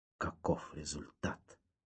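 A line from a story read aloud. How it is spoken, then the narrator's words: Old man's whisper. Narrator (Russian): прошептал старичок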